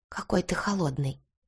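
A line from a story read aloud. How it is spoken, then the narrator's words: Whisper in ear. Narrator (Russian): прошептала она на ухо Илье Петровичу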